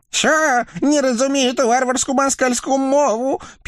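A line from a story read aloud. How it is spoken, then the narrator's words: Terrified squeak. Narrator (Russian): пискнул насмерть перепуганный черт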